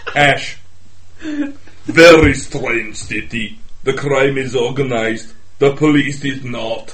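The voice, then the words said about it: Arnold Schwarzenegger impression, Russian-Austrian accent. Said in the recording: “The Russian accent with the Austrian thing... Yes, Arnold Schwarzenegger.”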